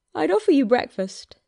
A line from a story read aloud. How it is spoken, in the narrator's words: Louis's mouth stretched around his yawn to say